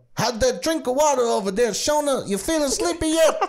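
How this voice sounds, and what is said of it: Imitates another person's voice. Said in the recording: “That was a weirdly good impression.”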